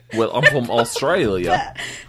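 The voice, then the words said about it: Put-on Australian accent. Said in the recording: “What are these accents? ... Why are you from Australia?”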